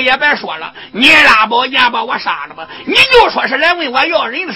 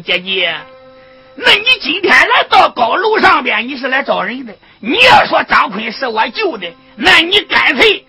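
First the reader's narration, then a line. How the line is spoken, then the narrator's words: Calling out. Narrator (Chinese): 二小姐喊道声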